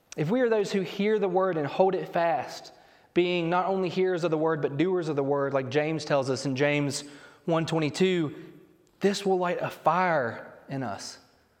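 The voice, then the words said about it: Noticeable accent on certain words. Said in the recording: “I really heard my accent there when I said fire.”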